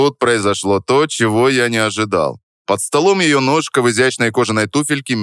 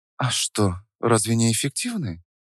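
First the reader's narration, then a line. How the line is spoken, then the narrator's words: Near whisper. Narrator (Russian): Почти прошептала она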